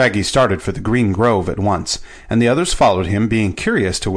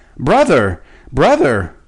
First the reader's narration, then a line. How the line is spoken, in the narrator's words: Shaggy Man cried aloud